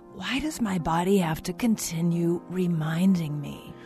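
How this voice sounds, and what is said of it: Whispering. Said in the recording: “All that whispering was making my throat sore.”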